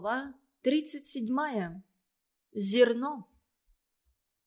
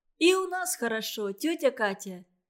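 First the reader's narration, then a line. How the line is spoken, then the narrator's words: Shout. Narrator (Russian): крикнула Маша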